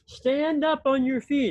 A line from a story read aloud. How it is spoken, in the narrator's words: Paul, before all the watching eyes in that crowd, called out